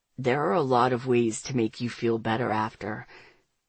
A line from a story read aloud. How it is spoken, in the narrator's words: I see the devilry in his eyes just before he murmurs